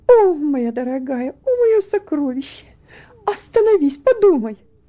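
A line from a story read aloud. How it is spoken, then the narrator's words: Mother's pleading. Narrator (Russian): взмолилась ее мать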